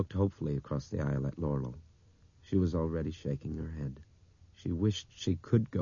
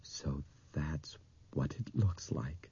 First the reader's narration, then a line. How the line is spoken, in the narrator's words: he said in a soft, awed voice